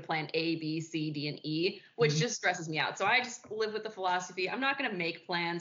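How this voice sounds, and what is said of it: Chicago accent. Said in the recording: “everybody at Bellarmine likes to make fun of my Chicago accent”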